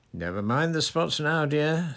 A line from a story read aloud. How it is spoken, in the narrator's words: said Umbridge impatiently